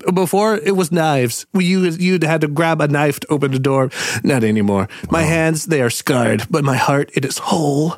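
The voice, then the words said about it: Imitates another person's voice. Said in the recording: “That's the best impression I've ever heard. That was incredible.”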